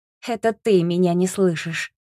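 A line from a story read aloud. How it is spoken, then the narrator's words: Suppressing laughter. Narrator (Russian): ответила я, стараясь не рассмеяться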